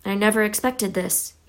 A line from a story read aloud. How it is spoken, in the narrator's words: he said in a low, worried voice